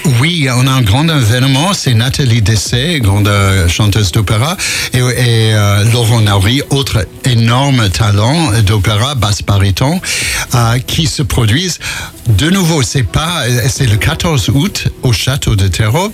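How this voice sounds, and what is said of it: American accent speaking French. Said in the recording (French): “on entend votre accent, parce que vous êtes américain ... j'arrive pas à perdre l'accent”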